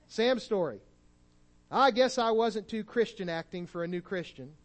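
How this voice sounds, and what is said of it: Missouri drawl. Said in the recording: “I wish I could do a Texas drawl, but I'm afraid to try it today. So I'll just give you my Missouri drawl.”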